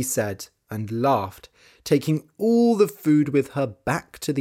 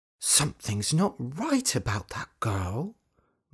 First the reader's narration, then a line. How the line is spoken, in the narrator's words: muttered Dorothy